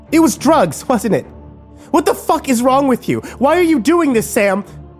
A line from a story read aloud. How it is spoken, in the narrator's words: Kimber screamed